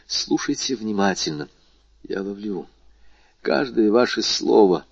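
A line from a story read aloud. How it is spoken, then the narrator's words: Whisper. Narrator (Russian): прошептал Вильфор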